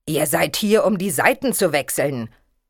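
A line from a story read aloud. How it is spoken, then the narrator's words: King replying sternly. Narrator (German): gab der König streng zurück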